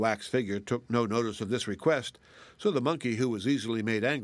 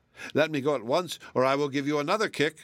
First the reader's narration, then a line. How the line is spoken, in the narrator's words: cried